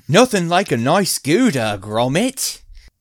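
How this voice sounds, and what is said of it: Bad put-on British accent. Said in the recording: “That was a bad British accent.”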